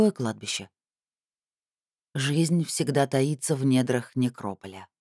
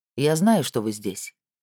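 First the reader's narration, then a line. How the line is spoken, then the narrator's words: Calm spirit. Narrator (Russian): спокойно произнес дух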